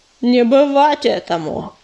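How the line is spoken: Growl. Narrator (Russian): прорычал Чернозвезд

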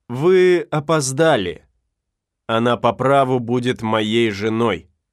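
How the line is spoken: Calm. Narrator (Russian): спокойно сказал

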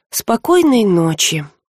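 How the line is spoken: Gloomy. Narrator (Russian): мрачно пожелала рыска

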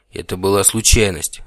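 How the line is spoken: Irritated reply. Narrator (Russian): раздраженно ответил Девлин

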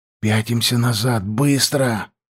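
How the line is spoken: Whispered. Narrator (Russian): прошептал я

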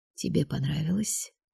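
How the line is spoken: Quiet question. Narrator (Russian): тихо спросил драгон

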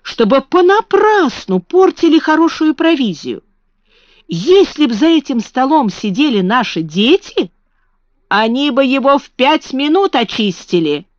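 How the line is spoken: Exclamation. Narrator (Russian): воскликнула Марта

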